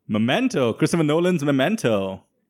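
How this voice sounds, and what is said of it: Put-on accent. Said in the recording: “What's with the accent?”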